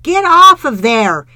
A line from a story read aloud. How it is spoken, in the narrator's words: yelled